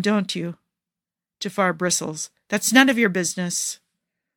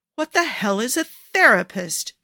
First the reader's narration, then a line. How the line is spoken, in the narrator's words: Jafar snaps